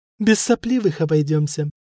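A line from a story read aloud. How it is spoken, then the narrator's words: Laughing. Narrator (Russian): засмеялась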